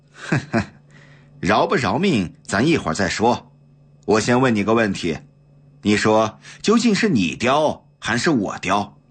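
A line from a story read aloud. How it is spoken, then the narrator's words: Cold snorting sneer. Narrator (Chinese): 袁继耀哼哼冷笑一声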